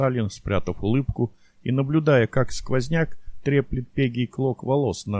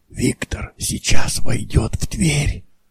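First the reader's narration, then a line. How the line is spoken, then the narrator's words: Whisper. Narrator (Russian): прошептал Мещеряков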